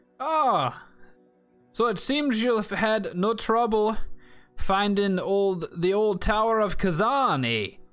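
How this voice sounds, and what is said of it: Character voice with put-on accent. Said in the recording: “What is that accent?”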